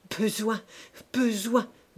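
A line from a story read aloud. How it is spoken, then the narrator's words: Stammering. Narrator (French): balbutia-t-il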